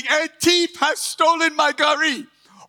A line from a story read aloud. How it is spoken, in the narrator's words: shouting